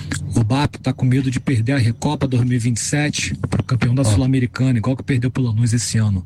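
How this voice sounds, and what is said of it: Whispering, speaking quietly. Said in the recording (Portuguese): “Sussurrando ... ele machuca sussurrando ... Falou baixo.”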